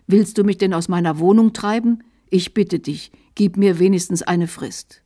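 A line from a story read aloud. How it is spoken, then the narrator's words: Dismayed demon's cry. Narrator (German): Der Dämon ruft bestürzt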